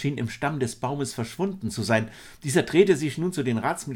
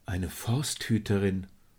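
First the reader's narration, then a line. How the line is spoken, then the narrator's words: Murmured. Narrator (German): murmelte Ariadne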